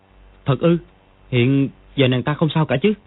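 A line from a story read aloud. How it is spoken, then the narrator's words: Shocked trembling question. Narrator (Vietnamese): Dương Quá cả kinh, run run hỏi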